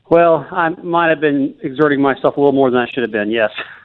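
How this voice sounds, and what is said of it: Out of breath, breathy speech. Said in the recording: “you sound out of breath”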